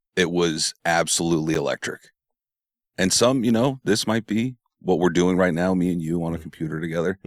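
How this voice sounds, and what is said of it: Tired, strained voice from yelling. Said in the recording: “I am extremely tired. You can hear it in my voice. I was yelling a lot last night.”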